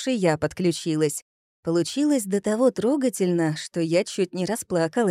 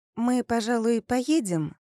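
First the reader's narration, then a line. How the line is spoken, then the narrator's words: Timid question. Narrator (Russian): робко спросила я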